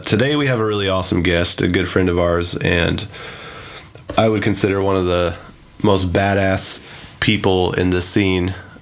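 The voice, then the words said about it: Sick, congested-sounding voice. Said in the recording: “I'm kind of sick today. ... so you sound sick, dude. ... If I sound like a mutant,”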